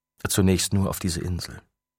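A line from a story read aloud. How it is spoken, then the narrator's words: Plain. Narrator (German): sagte Hiroshi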